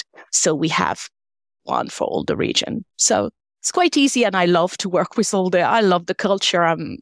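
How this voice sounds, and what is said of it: French accent. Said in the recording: “As you can hear from my accent, I'm French.”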